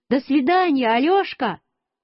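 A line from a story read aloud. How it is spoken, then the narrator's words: Shout. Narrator (Russian): Петя крикнул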